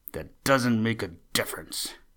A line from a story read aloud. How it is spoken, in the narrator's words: snapped Buster